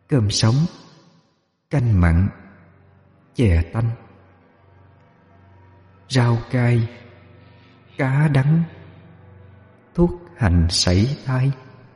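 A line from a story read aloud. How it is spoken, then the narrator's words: Murmuring softly. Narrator (Vietnamese): mỗi cái móng là một lời thủ thỉ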